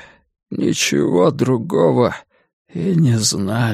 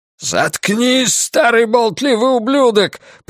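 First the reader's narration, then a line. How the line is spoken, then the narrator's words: Shouting. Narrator (Russian): прокричал Ллойд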